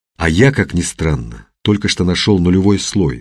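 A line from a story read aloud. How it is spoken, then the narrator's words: Plain. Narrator (Russian): сказал Мухин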